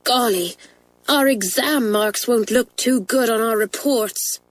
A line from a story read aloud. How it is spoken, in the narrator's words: sighed Pat